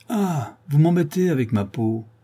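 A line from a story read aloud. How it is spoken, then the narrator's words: Loud booming shout. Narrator (French): Henri lui cria de sa grosse voix sonore et pleine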